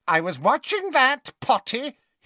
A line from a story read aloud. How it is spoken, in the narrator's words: he told Harry indignantly